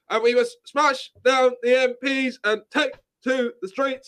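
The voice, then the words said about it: Imitates another person's voice. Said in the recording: “That's quite a good impression of Piers”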